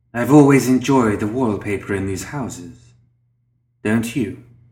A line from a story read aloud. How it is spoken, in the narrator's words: His voice was predatory, spidery and soft, yet authoritative and domineering